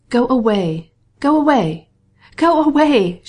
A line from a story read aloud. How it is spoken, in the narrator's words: she cried, as if her words were torn from her by physical agony